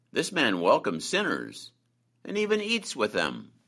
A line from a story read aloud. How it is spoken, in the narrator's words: Both the Pharisees and the scribes grumbled to each other, saying